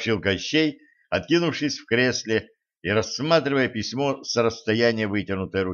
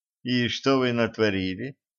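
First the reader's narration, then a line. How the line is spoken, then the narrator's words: Lazy question. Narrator (Russian): лениво осведомилась Женька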